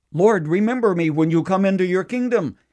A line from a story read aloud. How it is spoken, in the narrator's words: One of them cried out